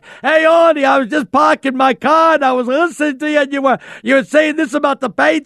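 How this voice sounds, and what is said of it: Put-on Boston accent. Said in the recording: “one of those guys with the Boston accent”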